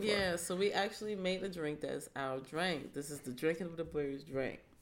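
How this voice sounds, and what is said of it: Congested, deep-sounding voice with a cold. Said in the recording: “if you hear me like coughing and sniffing a little bit, I'm just getting over a cold, and I'm sorry if I'm sounding like a man”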